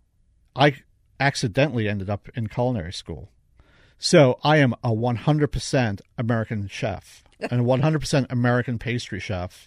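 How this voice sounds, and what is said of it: Non-American accent. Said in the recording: “I'm a true American chef, as you can tell by my accent.”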